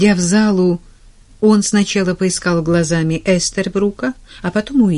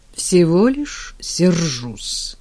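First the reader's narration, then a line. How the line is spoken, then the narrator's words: Through gritted teeth. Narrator (Russian): процедил Клейтон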